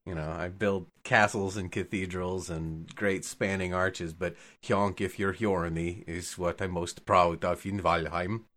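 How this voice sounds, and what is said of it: Speaking with a noticeable accent. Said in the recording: “he's pulled the accent out... It happens to me on uh, not on purpose”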